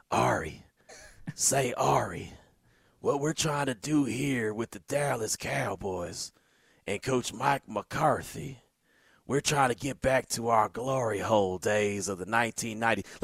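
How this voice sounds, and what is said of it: Imitates another person's voice. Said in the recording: “my Jerry Jones impersonation”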